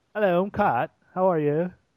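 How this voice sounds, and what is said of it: Poor put-on Australian accent. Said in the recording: “That's my Australian accent. It's pretty piss poor, actually.”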